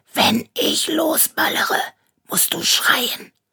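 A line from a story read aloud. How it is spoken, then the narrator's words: Hissing. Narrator (German): zischte Rainer mir zu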